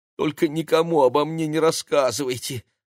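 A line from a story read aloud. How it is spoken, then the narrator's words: Pleading. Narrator (Russian): взмолился мэр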